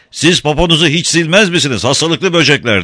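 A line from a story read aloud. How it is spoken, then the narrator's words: Cry. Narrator (Turkish): diye haykırdı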